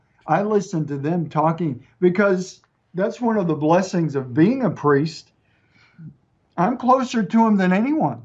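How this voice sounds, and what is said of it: East Texas mixed American accent. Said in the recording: “my accent, a little bit mixed with East Texas and a few other things”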